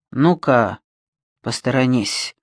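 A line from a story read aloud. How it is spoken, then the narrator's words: Hoarse but calm. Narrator (Russian): хрипло, но на удивление спокойно сказал Альберг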